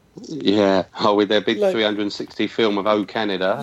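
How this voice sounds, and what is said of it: London accent, slightly Australian-sounding. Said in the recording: “I've got a London accent, and it can sound a bit Australian.”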